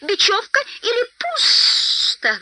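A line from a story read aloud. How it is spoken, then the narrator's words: Shrill squeal. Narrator (Russian): взвизгнул Голлум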